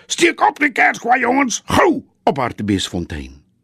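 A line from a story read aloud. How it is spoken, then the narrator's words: Shouting. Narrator (Afrikaans): Dolfie skreeu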